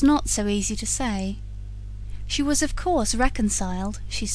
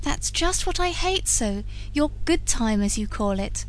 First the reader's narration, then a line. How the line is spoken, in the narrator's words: retorted Laura, smarting under the laughter